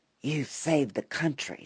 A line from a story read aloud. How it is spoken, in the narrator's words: Senator Patton whispered in an aside